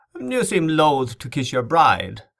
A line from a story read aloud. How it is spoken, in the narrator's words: the Marquess mocked